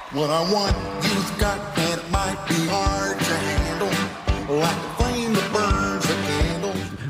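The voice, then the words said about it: Singing in a southern accent. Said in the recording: “that weird sort of southern accent thing that was going on there”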